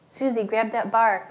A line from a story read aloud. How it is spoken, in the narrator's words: Granddad had shouted